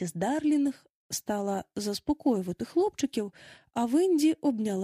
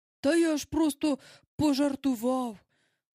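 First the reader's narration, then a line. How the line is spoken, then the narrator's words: Exclaimed at once. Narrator (Ukrainian): одразу вигукнув містер Дарлінг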